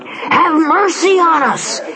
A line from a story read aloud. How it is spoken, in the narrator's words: cried